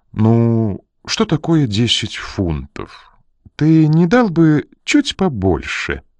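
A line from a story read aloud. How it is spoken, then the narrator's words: Coaxing. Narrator (Russian): вкрадчиво попросила она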